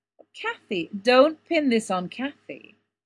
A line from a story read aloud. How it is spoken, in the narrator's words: Don interrupted, with a quick laugh